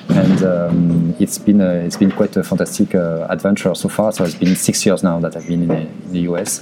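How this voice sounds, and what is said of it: French accent. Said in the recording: “I still have my French accent”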